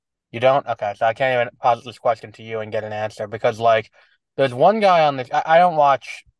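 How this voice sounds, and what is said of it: Usual voice. Nothing is said of it.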